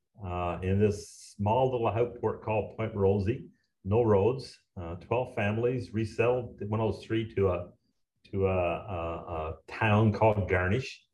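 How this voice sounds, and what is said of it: Newfoundland accent. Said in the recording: “you could probably pick up an accent here ... I'm a new from Newfoundland”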